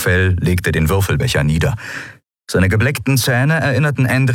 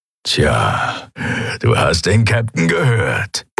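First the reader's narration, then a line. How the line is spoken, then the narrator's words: Grumbling. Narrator (German): brummte er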